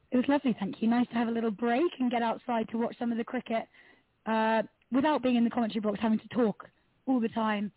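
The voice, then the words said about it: Slightly croaky voice. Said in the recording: “my voice is a little, little croaky from getting so excited by all the cricket”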